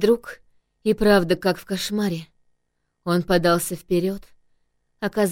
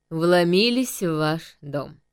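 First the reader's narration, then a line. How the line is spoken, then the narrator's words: Mocking, interrupting. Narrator (Russian): насмешливо произнес мужчина, перебив меня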